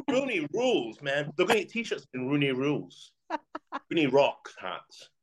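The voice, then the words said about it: Put-on accent during a rant. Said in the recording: “Do that rant in that accent.”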